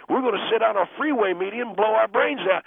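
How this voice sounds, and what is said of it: Angry speaking voice. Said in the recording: “You sound angry,”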